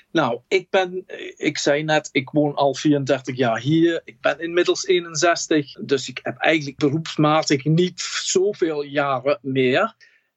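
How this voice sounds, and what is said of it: Slight English accent in Dutch. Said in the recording (Dutch): “Jij komt uit Manchester ... Dat hoor je toch wel een beetje aan mijn accent”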